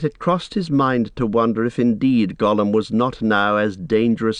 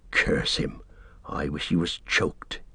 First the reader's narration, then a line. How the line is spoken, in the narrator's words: he muttered